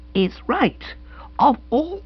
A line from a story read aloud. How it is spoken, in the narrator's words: she concurred, speaking in a strange, strangled voice